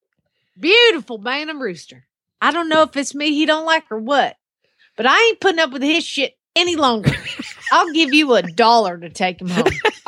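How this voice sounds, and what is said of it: Put-on Southern accent. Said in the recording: “you need to do that in your best Southern accent. Do it in your best Southern accent.”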